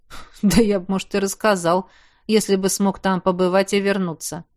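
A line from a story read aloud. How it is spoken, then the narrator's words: Skeptical snort. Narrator (Russian): хмыкнул Хорд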